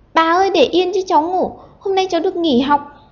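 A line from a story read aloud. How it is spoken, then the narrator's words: Ticklish child screaming. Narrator (Vietnamese): nhột quá, nó đành phải thét lên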